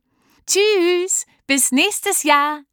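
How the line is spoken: Called out. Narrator (German): rief Selma

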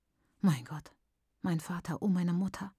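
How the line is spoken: Whisper. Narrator (German): flüstert Maitaka

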